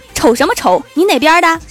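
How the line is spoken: Sudden angry shout. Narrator (Chinese): 我老妈突然大吼

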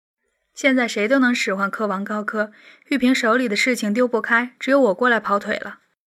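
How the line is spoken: Soft, smiling. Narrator (Chinese): 嫣然一笑，轻声说道

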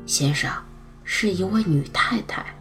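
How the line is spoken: Soft, quiet. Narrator (Chinese): 他贴近戴柱，轻声说道

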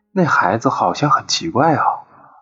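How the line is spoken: Children murmuring quietly. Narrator (Chinese): 所有孩子都理所应当的小声议论他

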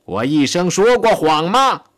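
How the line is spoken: Shouting. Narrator (Chinese): 他喊道

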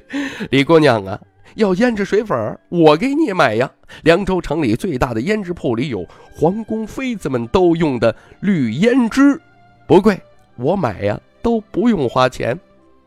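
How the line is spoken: Laughing. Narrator (Chinese): 徐凤年出声笑道

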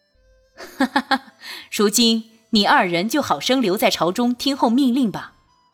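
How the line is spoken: Laughing. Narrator (Chinese): 俊玉……笑道

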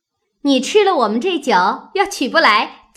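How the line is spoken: Laughing. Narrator (Chinese): 湘云笑道

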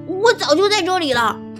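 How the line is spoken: Shouting. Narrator (Chinese): 刺猬的老婆大喊道

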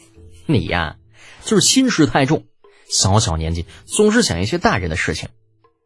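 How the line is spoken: Smiling. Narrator (Chinese): 李浩又笑着

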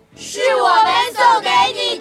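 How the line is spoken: Loud shouting. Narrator (Chinese): 动物们大声的喊着

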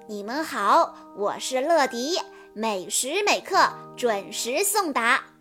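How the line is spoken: Smiling. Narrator (Chinese): 乐迪微笑着说

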